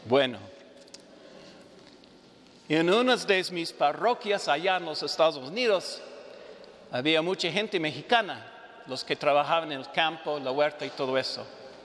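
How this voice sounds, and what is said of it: North American accent in Spanish. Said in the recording (Spanish): “mi acento norteamericano”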